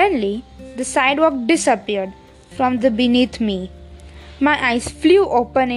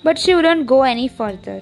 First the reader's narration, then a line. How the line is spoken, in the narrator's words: Mike explained, in a defensive tone